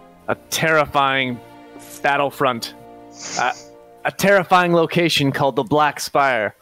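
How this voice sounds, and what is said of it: Usual voice. Nothing is said of it.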